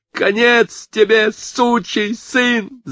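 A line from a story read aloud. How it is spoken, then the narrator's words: Hoarse hysterical scream. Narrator (Russian): завопил Кевин сорванным истерическим голосом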